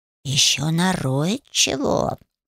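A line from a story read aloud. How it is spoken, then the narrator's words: Thoughtful drawl. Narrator (Russian): Задумчиво протянул фамильяр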